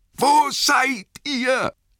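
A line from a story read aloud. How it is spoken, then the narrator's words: Calling out again. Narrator (German): rief er noch einmal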